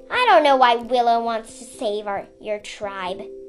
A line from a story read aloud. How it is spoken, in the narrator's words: Sundu snapped